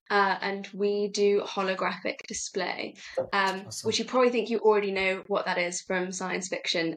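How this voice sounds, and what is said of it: British accent. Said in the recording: “running out of the UK, if you can tell from my accent already”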